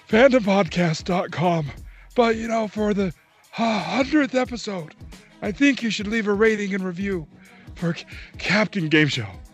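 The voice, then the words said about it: Breathless old man voice. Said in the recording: “in an old man voice ... out of breath, old man”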